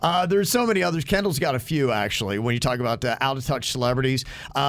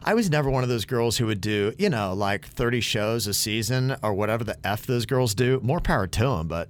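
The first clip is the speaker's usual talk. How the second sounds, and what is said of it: Impression of Kendall Jenner. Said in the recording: “That's a good impersonation.”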